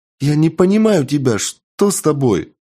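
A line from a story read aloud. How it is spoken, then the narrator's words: Voice with occasional sobs. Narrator (Russian): В голосе Ехи появились редкие всхлипы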